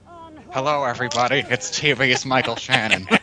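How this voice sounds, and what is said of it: Imitates another person's voice. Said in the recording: “Here comes one of ... best impersonations.”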